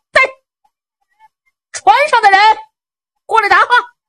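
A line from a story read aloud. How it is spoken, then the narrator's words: Loud shouting. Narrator (Chinese): 陆青高声喊嚷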